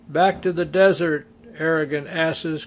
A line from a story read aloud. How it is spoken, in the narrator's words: cried